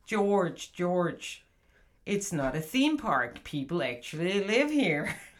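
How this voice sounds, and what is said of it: Mock American accent. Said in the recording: “that's ... American accent. Whenever she wants to make fun of American people talking to each other”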